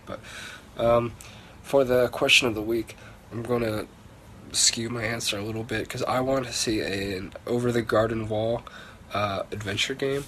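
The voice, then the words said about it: Voice rough from illness. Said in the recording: “Pardon my voice, ... I've come down with the Comic-Con flu”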